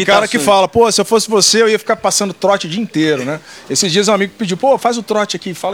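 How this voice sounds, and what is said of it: Usual voice. Nothing is said of it.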